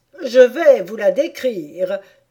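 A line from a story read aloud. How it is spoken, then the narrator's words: Griffin exclaiming. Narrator (French): s'écria le griffon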